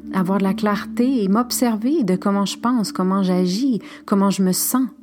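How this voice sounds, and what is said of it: French with a partly Spanish accent. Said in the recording (French): “Dit avec mon accent médio espagnol.”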